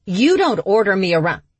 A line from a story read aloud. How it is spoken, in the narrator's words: Britta angrily snapped